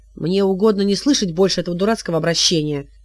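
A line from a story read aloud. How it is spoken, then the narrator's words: Barking. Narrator (Russian): рявкнул Хилот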